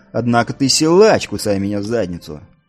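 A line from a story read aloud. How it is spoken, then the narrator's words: Smirking grunt. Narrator (Russian): Нил хмыкнул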